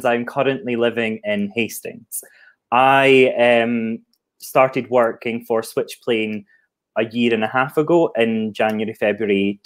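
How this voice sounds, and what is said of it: Scottish accent. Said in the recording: “I'm not from the Southeast, if you didn't tell that from my accent. I'm an export from Scotland”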